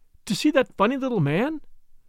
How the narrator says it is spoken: exclaimed Caroline

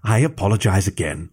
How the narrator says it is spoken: Volker's mother said with another sigh

